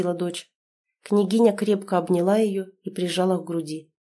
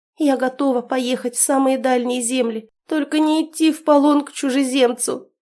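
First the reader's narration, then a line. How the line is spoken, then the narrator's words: Tearful princess. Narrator (Russian): сквозь слезы проговорила княжна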